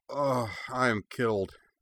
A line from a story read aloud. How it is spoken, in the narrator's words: Cora declared weakly